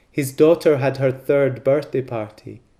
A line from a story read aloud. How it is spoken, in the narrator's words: laughs